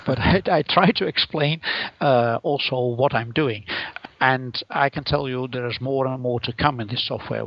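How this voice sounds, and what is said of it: Dutch-accented English. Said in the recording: “my horrible Dutch accent”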